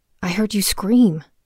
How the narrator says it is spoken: she said

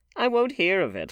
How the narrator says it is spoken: laughed Lord Henry

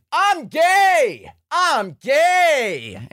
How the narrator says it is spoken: Tumad just starts yelling

